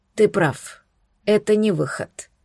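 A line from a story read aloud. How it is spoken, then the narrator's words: Weary sigh. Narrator (Russian): устало вздохнул Эритар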